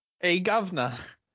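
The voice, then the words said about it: Unconvincing attempted British accent. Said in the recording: “I wouldn't call that a British accent ... You're getting closer.”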